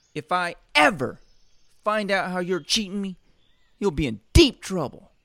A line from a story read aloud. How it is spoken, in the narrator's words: she screamed